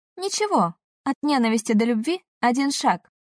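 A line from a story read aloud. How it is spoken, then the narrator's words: Cheerful reply. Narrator (Russian): тоже весело ответила Юна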